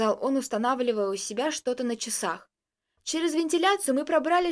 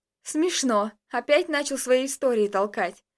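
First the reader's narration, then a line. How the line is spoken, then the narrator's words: Laughing remark. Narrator (Russian): посмеялся я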